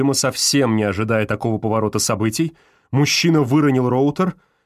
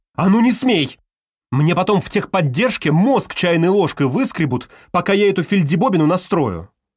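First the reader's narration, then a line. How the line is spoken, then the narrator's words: Exasperated shout. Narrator (Russian): Понимая, что этот тип вот-вот сбросит роутер до заводских настроек, Галкина не выдержала и крикнула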